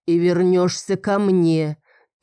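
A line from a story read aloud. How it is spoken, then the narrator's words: Demanding growl. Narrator (Russian): требовательно прорычал он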